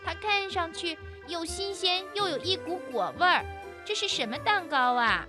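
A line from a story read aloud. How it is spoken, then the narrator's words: Plain question, little squirrel. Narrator (Chinese): 小松鼠问金花鼠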